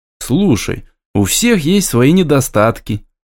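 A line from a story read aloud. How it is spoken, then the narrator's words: Conciliatory sigh. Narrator (Russian): вздохнул примирительно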